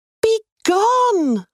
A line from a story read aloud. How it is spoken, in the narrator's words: I shouted